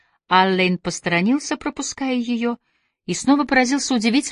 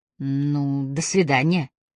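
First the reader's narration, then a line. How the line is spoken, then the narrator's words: Uncertain. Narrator (Russian): неуверенно произнесла Агата Трой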